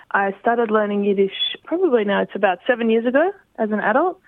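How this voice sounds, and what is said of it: Australian accent. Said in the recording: “I hear your accent. You're Australian.”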